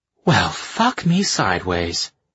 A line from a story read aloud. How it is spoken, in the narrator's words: she breathed